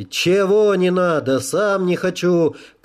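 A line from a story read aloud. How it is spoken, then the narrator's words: Shout. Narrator (Russian): крикнул полковник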